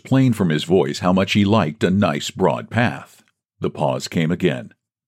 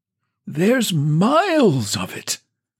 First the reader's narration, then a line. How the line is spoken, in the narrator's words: quavered old Woodfield